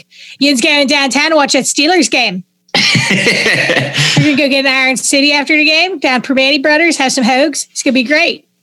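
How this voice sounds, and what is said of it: Exaggerated Pittsburgh yinzer accent. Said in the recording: “I love the Pittsburgh accent. It is one of my favorite accents to do ... I get to pretend I'm a yinzer that's like, to the nth degree ... It's such like a blunt accent.”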